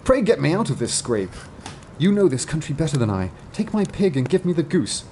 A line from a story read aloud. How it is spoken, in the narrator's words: cried he